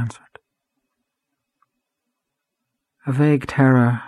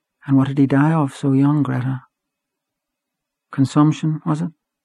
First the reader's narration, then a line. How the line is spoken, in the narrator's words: Gabriel, feeling now how vain it would be to try to lead her whither he had purposed, said also sadly